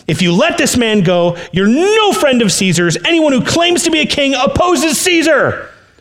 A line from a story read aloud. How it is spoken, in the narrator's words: the Jewish leaders kept shouting